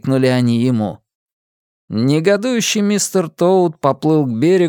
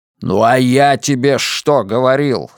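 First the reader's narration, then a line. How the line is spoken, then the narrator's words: Angry, old uncle. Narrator (Russian): сказал дядюшка Ред сердито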